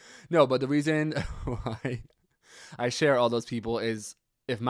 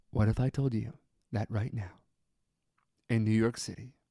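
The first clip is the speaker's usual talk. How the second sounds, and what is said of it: Mimics public radio announcer voice. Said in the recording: “I have to use my NPR voice.”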